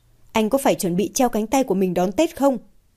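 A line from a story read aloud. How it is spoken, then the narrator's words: Angry, irritated. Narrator (Vietnamese): Mạc Đình Kiên ... với một sự tức giận, bực bội trong giọng điệu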